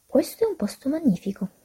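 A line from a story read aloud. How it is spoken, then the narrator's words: Plain. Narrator (Italian): disse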